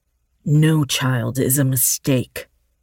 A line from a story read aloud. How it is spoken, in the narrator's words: Dylan growled